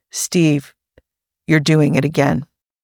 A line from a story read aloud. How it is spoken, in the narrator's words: he said very gently